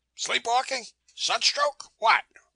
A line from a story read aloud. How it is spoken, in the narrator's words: he barked